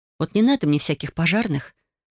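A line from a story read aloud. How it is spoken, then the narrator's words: Sighing. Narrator (Russian): вздохнула я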